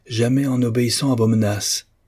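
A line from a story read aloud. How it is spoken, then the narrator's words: Exclaiming. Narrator (French): s'écria Mr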